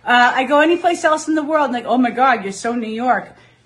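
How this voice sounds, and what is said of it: Strong New York accent. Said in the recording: “Best New York Accent Contest”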